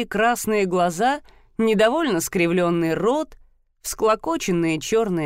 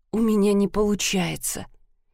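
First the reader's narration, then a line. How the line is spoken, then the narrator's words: Quiet mumble. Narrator (Russian): тихо пробормотала она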